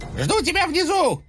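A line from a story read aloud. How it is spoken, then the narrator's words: Squeaky. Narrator (Russian): пропищал Утес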